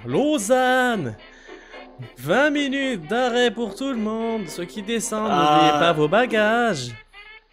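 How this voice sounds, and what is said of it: Put-on Swiss French accent. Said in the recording (French): “Magnifique accent suisse, je le reconnais.”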